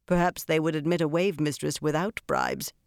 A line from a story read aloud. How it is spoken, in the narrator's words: Harina said dryly